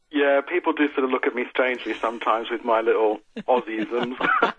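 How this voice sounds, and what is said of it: Slight British accent. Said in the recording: “a little bit of a British accent that you have now. You've lost all your Aussie accent.”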